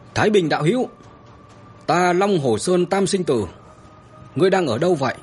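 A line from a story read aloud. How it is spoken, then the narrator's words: Shouting. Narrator (Vietnamese): tiếng hét của Trường Sinh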